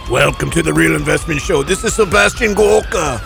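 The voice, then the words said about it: Imitates another person's voice. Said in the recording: “I got to work on that impression. ... Yeah, you're going to have to give that a little bit of... ... I'm going to have to give that a little work.”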